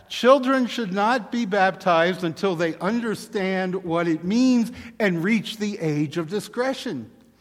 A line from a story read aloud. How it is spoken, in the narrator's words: they shout back